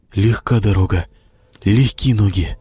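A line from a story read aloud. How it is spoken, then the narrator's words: Whisper to oneself. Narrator (Russian): Прошептал про себя Костик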